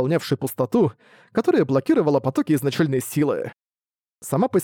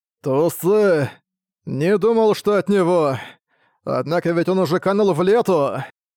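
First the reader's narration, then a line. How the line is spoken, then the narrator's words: Heavy sigh. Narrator (Russian): Тяжело вздохнул Ло Чэнь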